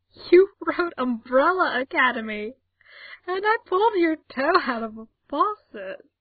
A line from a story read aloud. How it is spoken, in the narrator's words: cracking up, managing to say between giggles